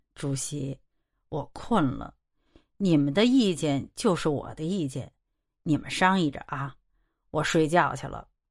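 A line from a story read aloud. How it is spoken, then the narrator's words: Sleepy mumbling. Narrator (Chinese): 莫大年嘟嘟囔囔的说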